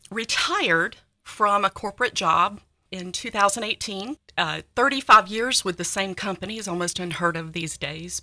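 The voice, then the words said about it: North Carolina Southern accent. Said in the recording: “It is a North Carolina accent, but it blends well with Tennessee”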